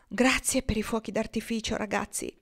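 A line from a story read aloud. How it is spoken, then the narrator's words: Murmuring. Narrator (Italian): Marnie mormorò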